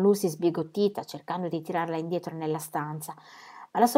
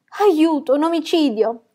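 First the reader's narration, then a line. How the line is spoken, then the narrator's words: Shrieking. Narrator (Italian): strillò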